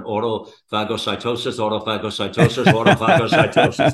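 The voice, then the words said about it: Word repeated rapidly three times. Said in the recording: “say that fast three times”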